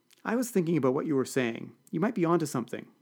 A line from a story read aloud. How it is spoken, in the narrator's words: said Kennedy